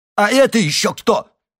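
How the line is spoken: Elderly man's shout. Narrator (Russian): крикнул пожилой азиат

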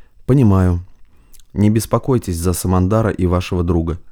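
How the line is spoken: Plain. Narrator (Russian): сказал Парамонов

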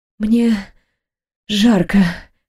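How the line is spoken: Hoarse, strained. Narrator (Russian): хрипло выдавила в ответ

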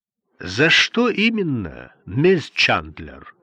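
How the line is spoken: Plain. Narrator (Russian): спросил судья

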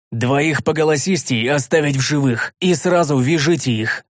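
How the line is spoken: Growling shout. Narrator (Russian): Обладатель тяжелых сапог рычащим голосом крикнул

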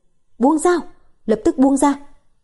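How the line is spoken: Loud command. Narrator (Vietnamese): Tứ Phương lớn tiếng quát

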